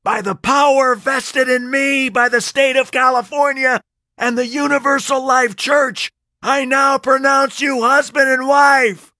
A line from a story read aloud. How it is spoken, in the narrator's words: I yelled